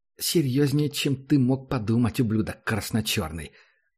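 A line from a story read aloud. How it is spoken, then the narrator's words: Angry hiss. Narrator (Russian): зло прошипела она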